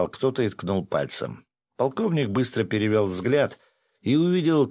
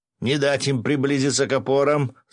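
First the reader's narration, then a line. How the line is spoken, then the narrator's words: Shout. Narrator (Russian): заорал он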